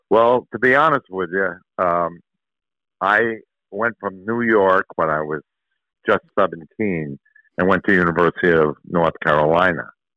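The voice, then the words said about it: East Coast Yankee accent. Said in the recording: “East Coast accent ... I recognize your accent ... a Yankee accent”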